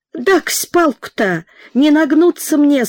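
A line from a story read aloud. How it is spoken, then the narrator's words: Old man's plaintive whimper. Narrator (Russian): Словно попавшаяся в капкан старая лисица, жалобно заскулил старик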